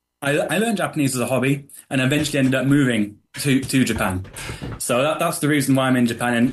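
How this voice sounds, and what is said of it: Southwest English accent. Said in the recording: “as you can tell by the accent, from the southwest in the UK”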